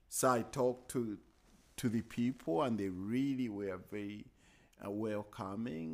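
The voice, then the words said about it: Very heavy accent. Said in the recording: “My accent is very heavy.”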